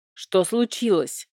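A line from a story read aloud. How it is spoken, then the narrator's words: Grumble. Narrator (Russian): проворчал вредный Нейн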